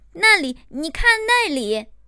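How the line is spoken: Father and son crying out. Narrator (Chinese): 一旁的父子叫了起来

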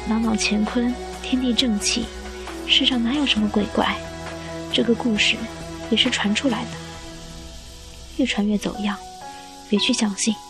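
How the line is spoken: Low comforting voice. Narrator (Chinese): 雨墨低声安慰

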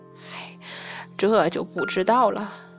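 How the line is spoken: Sighing. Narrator (Chinese): 太白金星 叹息

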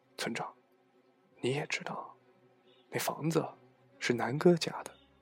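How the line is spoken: Lowered voice. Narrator (Chinese): 压低嗓门说

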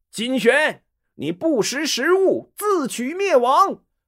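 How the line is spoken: Loud. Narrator (Chinese): 谋士公志 大声说

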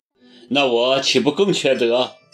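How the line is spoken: Laughing loudly. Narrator (Chinese): 高鹏大笑

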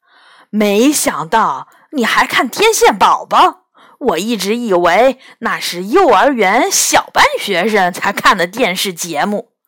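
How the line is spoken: Mocking. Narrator (Chinese): 杨永乐嘲笑元宝

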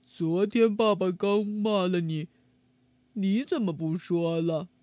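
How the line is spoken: Quiet muttering. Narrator (Chinese): 佐福悄悄在旁边嘀咕了一句

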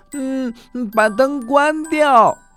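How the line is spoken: Loud cry. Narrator (Chinese): 他大声的叫着

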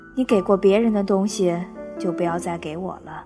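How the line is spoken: Flat, indifferent. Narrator (Chinese): 淡淡的说

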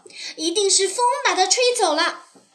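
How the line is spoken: Startled cry. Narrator (Chinese): 松鼠惊叫道

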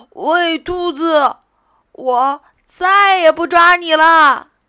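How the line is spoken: Low calling. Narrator (Chinese): 狐狸低声喊道

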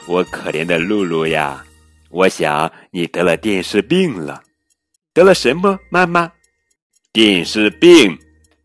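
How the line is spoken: Laughing. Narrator (Chinese): 他笑着说

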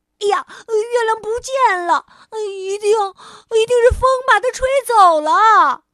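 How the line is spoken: Startled cry. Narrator (Chinese): 松鼠惊叫着

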